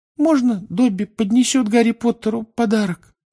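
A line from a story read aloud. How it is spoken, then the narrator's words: Timid question. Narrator (Russian): робко спросил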